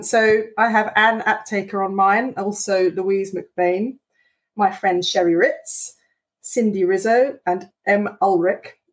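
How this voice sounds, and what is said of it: British accent. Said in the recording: “that fabulous British accent of yours”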